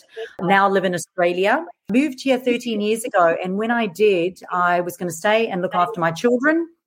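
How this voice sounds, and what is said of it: Mixed South African accent. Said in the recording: “I'm originally from South Africa, so you'll notice this really mixed accent.”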